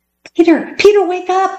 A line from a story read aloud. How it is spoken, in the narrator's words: cried Judy